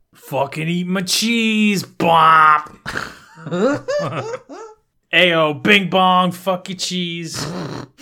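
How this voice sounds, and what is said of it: Put-on New Jersey accent. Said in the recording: “Jersey ... a shit accent”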